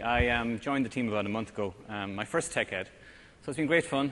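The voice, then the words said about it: Irish accent. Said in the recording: “I'm Irish ... my kids have American accents, but I'm holding on to mine”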